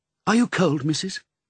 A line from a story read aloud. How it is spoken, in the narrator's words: asked anxiously